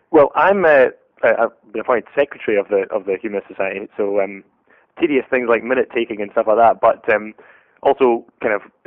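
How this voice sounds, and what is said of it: Scottish accent. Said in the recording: “is a Scotsman ... I love that accent.”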